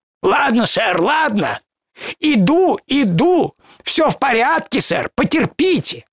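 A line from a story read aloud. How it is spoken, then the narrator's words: Sharp shrill shouting. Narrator (Russian): резким пескливым голосом, выкрикивавшим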